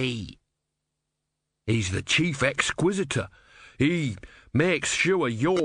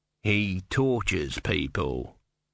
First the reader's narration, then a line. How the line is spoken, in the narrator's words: he said coldly